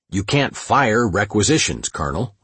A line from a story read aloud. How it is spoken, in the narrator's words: I replied